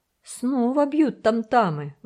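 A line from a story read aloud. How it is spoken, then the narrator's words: Excited exclamation. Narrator (Russian): воскликнул взволнованный Томок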